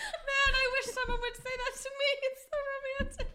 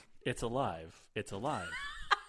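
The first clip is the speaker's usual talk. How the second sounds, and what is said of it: Put-on Russian accent. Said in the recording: “In a Russian accent. ... In Russian?”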